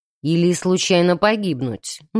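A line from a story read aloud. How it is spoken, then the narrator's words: Gloomy objection. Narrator (Russian): мрачно возразил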